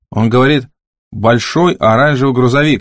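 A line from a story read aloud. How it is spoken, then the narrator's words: Plain. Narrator (Russian): сказала Харпер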